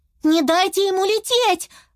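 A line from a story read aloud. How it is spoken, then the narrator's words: Shout. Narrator (Russian): закричала Юки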